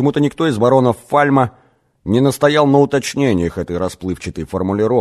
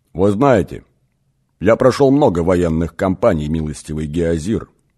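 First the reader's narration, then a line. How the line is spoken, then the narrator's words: Quietly beginning. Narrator (Russian): негромко начал Лид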